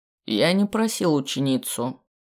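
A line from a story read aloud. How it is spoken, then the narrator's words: Dry objection, forest master. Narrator (Russian): сухо возразил хозяин леса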